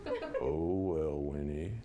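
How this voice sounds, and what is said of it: Mopey cartoon donkey character voice. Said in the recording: “Eeyore is the Winnie the Pooh, the donkey who is always like, oh. ... my best Eeyore imitation.”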